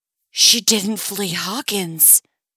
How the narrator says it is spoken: Steve whispers loudly

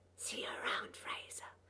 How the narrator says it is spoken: I whispered after him

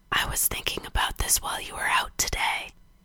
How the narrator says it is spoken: Gerard whispered in Frank's ear

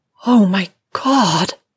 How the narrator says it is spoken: says in a strained moan, low in her throat as though exasperated by the strength of her own desire

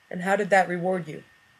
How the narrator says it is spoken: Watson asked, expending an immeasurable portion of control to keep his voice toneless

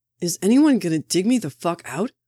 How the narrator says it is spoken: Bucky shouted from under the bookshelves

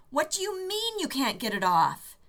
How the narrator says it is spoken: Rodney center stage, screeching

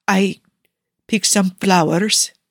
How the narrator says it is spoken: he says timidly

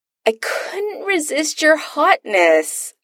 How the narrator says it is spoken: Adam whines

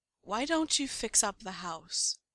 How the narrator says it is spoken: Styles asks eventually, his voice calm and steady

